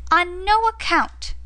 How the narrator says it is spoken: cried Lise

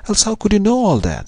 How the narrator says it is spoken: she cried

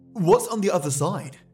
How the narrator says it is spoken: Rhys finally asked

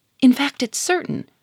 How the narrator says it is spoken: cried Germaine

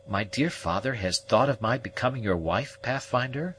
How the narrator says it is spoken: exclaimed

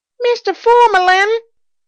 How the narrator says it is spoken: bawled a page boy

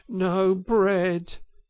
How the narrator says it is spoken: groaned the mole dolorously

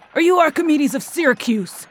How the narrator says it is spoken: screamed the exacerbated warrior

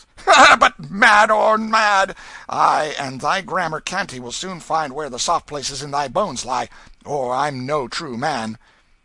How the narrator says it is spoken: said with a coarse laugh and an oath

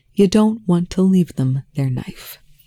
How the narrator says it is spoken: Telford said evenly

